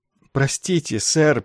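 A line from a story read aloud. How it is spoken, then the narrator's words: Mumbled. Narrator (Russian): промямлил капеллан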